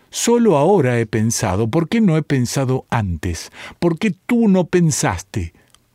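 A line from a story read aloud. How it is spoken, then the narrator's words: Hysterical, crying and laughing. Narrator (Spanish): Llorando, riendo, le dijo histéricamente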